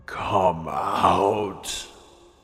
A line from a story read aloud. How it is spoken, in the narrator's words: It purred in a gravely sing-song voice